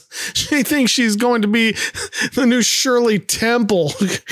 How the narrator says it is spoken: Marcia, trying to contain her laughter, says

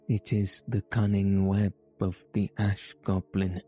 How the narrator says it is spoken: she breathed

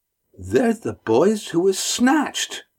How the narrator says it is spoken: exclaimed

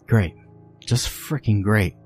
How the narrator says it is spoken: Mel muttered

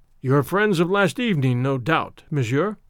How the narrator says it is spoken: remarked Kadur ben Sedin dryly to Tarzan

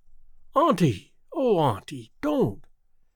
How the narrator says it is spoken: exclaimed Theodora impulsively

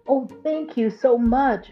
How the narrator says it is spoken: the beautiful girl exclaimed

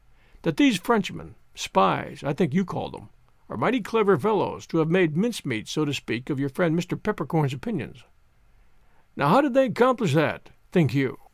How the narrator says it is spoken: he said quietly

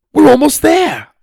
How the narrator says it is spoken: I shouted

